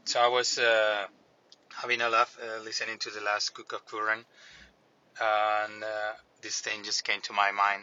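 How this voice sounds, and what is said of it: Non-native accent in English. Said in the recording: “apologies for my accent. This audio is going to be probably kind of a pain for you guys”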